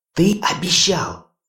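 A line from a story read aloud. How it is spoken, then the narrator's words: Strained hiss. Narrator (Russian): с натугой прошипела Хона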